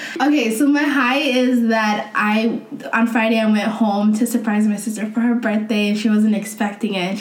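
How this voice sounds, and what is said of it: Hoarse, weak voice. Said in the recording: “I'm sick. I'm losing my voice. ... I have a really bad cold.”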